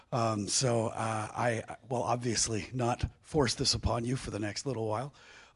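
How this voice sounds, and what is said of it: Hoarse, weakened voice. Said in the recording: “as you can tell, my voice is not fully recovered yet”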